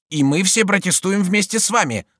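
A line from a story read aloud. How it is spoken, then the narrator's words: Group yelling. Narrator (Russian): завопили его собратья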